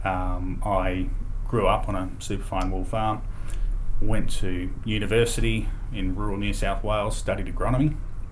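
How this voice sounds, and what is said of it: Australian accent. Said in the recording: “your accent is more Australian.”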